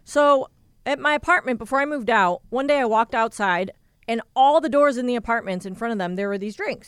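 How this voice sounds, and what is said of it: Hoarse, strained voice. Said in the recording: “I'm starting to lose my voice.”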